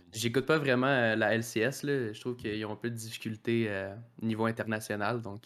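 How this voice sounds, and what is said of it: Quebecois French accent. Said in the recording (French): “J'aime bien entendre ce joli accent québécois”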